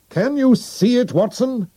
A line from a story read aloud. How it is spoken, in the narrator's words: He shouted